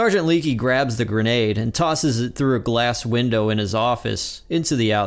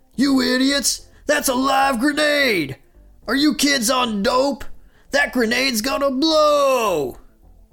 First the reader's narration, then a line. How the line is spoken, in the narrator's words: Sergeant Leakey yells